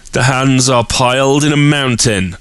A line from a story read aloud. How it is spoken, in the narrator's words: cried in a strong, clear voice